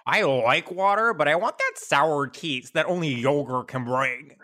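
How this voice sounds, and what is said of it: Nick Kroll impression. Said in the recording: “doing the Nick Kroll voice as Liz on Publicity ... a master of accent work ... a Nick Kroll impression”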